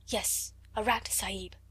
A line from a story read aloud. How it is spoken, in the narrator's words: answered Ram Dass, also whispering